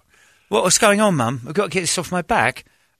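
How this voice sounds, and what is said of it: Dog character in English accent. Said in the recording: “Dutchie has an English accent, old English sheepdog.”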